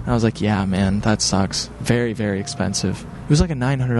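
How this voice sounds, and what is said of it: Usual voice. Nothing is said of it.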